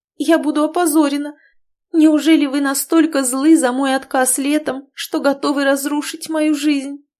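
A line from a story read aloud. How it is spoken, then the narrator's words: Tearful moan. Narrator (Russian): простонала в слезах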